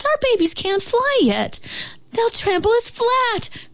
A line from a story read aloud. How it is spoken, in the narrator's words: cried the wildflowers